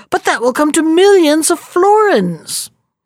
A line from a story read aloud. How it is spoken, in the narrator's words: cried the citizens